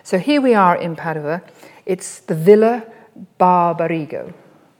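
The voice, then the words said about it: Poor attempt at Italian accent. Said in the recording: “Not a very nice Italian accent there”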